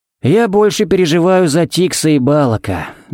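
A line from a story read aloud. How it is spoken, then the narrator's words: Sighing. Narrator (Russian): вздохнул Харри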